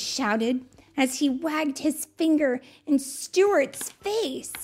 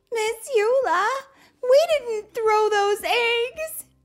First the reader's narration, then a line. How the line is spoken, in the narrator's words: I sobbed